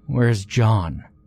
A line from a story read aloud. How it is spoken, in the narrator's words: I asked